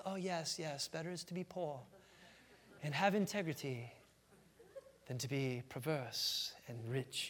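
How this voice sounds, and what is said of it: Rough put-on English accent. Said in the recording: “I guess that was an English accent, kind of.”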